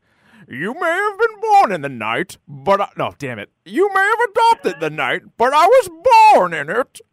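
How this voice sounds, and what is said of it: Shrill, too-high Bane impression. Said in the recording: “the worst impression that I do ... I think I go too high at times ... You go too way too. Shrill. ... I go way too high ... I can't do a Bane”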